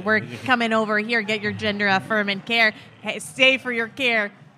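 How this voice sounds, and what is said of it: Put-on Minnesota accent. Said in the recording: “Do my Minnesota accent.”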